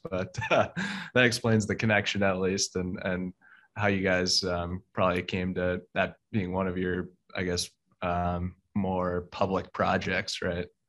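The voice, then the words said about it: American accent. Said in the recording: “my American accent is probably just butchering it to your ears”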